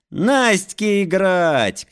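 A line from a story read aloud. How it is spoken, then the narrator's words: Shouted by everyone. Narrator (Russian): крикнули все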